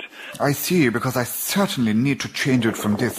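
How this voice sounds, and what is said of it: Posh RP English accent. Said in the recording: “RP ... a voice like this”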